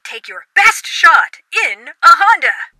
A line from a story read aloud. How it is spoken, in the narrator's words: Eric groans